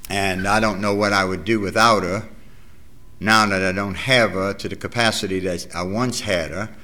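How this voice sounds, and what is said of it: New Orleans accent, non-rhotic. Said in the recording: “as far as my dialect goes, you probably haven't understood about 40% of what I said... New Orleans... We don't have any R's”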